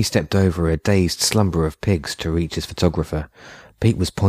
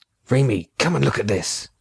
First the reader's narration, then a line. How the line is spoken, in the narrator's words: Pete whispered excitedly